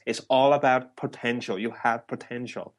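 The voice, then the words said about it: Terrible put-on Irish accent. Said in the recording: “that was a terrible Irish accent there”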